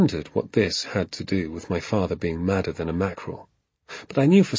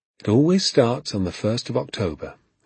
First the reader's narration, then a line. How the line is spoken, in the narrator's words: he said